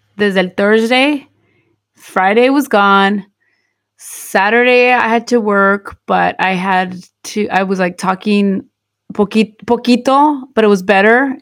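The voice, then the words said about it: Slightly hoarse voice. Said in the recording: “I lost my voice. ... I feel like I still sound a little ronca.”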